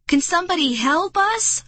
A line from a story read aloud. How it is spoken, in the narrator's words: I shouted